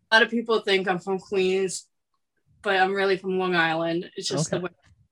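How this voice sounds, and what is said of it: Slight New York accent. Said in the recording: “do I hear a little New York accent in there?”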